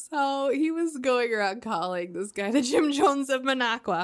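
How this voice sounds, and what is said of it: Usual voice. Nothing is said of it.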